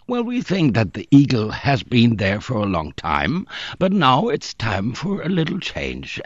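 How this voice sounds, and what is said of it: Nasal German-accented English. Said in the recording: “your nasal kind of affect there ... I have a Rhineland accent”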